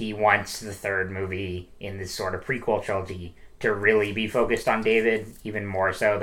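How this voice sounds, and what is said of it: Usual voice. Nothing is said of it.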